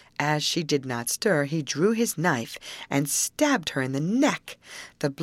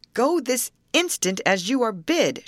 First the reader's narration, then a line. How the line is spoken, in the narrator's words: shouted the shoemaker, as if he was in a great passion